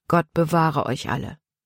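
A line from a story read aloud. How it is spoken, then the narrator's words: Quiet answer. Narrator (German): antwortete Paul leise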